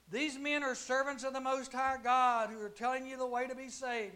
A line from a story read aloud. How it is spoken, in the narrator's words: The girl followed Paul and the rest of us shouting